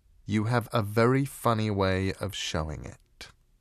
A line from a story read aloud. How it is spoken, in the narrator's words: said Coraline